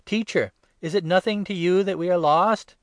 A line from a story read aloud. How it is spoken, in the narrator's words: the disciples cried